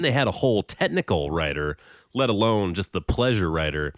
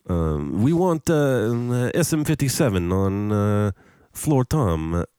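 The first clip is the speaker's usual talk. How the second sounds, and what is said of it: Attempted French accent, sounds Italian. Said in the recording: “I'll try to do a French accent here... That's Italian. I don't know what it is.”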